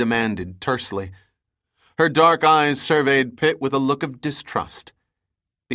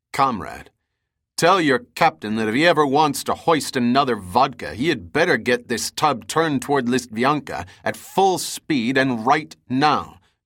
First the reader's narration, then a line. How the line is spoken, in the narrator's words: Pitt replied in a commanding tone